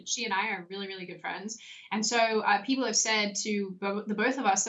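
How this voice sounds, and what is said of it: Shifting accent with Australian vowels. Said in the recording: “Your accent is fleeting. You'll be speaking, and halfway through a sentence, your accent changes, and O turns into an Australian O.”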